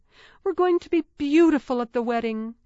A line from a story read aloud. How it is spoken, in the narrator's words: Clarissa exclaimed